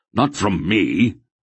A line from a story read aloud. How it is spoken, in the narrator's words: the old man exclaimed sharply